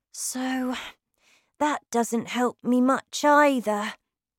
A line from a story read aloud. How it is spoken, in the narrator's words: said sadly